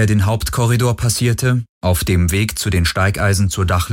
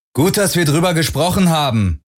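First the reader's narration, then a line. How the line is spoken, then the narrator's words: Calling after someone. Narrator (German): rief Parker Garland nach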